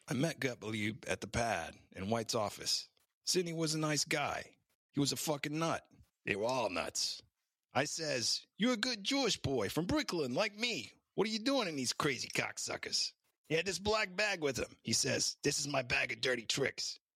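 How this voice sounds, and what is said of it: Put-on East Coast Brooklyn accent. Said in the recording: “I hear this like East Coast, like, forget about it kind of accent. This guy was from Brooklyn originally”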